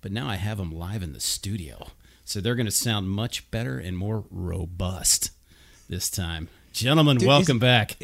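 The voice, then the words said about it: Put-on sexy voice. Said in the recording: “Is that your sexy voice? ... I was trying to give it my best.”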